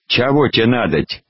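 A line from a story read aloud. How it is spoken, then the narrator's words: Plain question. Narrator (Russian): спросил Вавила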